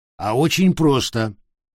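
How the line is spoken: Plain. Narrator (Russian): ответил Санчо

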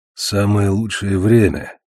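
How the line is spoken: Through gritted teeth. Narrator (Russian): процедил ворон сквозь зубы

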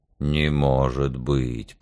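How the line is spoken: Grumbling. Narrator (Russian): проворчал медведь

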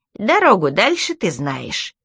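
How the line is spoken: Cheerful, brisk. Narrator (Russian): он бодро сказал

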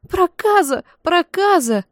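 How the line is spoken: Shrieking hag. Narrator (Russian): взвизгивала рыжеволосая корга

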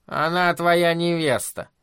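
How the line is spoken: Grumbling. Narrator (Russian): проворчала миссис Хиглер

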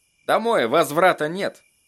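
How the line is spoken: Muttering. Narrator (Russian): пробормотал Эдди

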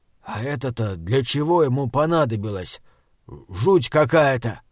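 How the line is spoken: Whispered question. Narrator (Russian): констебль спрашивает шепотом у Уортропа

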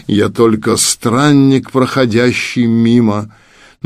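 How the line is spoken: Slow. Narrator (Russian): медленно проговорил

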